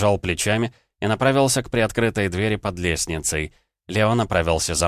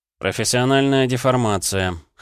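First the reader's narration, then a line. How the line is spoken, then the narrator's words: Snorting. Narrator (Russian): хмыкнул я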